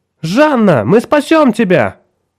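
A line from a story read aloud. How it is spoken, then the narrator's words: Shout. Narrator (Russian): выкрикнула Николь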